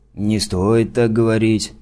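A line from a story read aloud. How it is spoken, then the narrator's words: Big man mumbling. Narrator (Russian): пробурчал здоровяк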